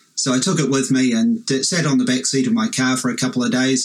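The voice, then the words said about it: Australian or New Zealand accent. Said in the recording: “Don't you love those accents?... We might need subtitles under the Aussies and the Kiwis”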